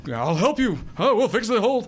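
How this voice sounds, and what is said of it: Doc Brown impression, Robin Williams-like. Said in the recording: “my thing sounds like Robin Williams ... That was a great Doc Brown impression.”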